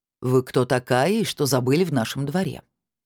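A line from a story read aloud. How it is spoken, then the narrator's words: Deep booming bass. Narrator (Russian): густым басом прогудела она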